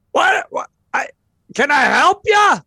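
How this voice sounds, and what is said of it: Loud yelling character voice. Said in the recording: “this man looks up and sells really, really loudly to you”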